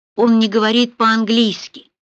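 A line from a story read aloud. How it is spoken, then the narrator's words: Cold remark. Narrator (Russian): холодно заметил Рауль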